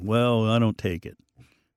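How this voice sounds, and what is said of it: Imitates a sullen teenage boy. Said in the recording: “my teenage boy impression”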